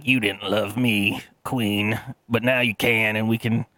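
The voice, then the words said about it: Badly done villain character voice. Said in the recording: “I'm doing a horrible voice for him”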